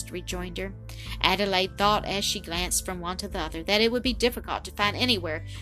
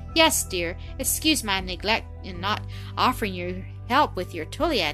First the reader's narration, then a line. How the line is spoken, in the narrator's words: Adelaide answered